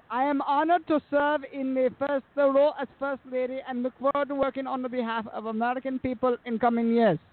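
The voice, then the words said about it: Weak Melania Trump accent impression. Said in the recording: “you really got to work on your accent. ... especially hers.”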